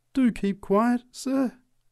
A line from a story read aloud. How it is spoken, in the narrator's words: pleaded the preacher